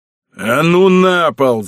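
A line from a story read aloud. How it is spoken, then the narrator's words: Furious growl. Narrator (Russian): зарычал усач, который уже распалил себя так, что мог меня убить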